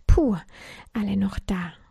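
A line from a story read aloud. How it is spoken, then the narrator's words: Relieved whisper. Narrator (German): flüsterte erleichtert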